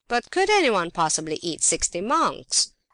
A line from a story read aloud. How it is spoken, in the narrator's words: Objected the scoffing listeners